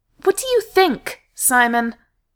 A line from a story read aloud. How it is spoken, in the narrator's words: he snapped